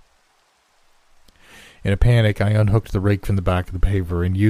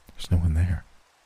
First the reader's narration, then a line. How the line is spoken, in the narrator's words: whispered Chuck